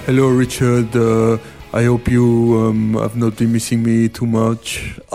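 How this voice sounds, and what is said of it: Impression of a French-accented colleague. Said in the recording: “Have you been practicing that? ... It's quite an easy impression, Francois ... it's a very good impression of Francois ... it wasn't that good, but he is quite easy to impersonate ... that was passable”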